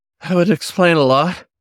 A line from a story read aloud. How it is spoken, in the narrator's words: Gerald panted